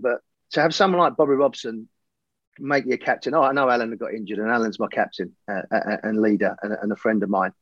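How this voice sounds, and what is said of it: Emotional voice. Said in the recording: “I'm getting a bit emotional.”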